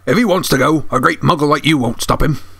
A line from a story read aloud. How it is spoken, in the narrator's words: growled Hagrid